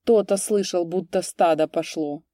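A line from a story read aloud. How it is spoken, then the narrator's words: Mocking boom. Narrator (Russian): насмешливо прогудел Гунявый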